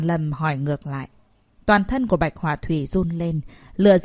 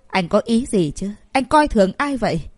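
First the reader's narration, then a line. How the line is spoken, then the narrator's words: Furious shout. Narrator (Vietnamese): Bạch Họa Thùy vô cùng tức giận, hét lên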